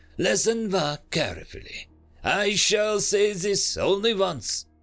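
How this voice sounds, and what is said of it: Slight French accent. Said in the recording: “With the merest breath of French accent”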